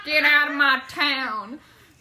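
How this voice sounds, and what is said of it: Put-on southern accent. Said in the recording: “A country western theme? ... Just talking in a southern accent.”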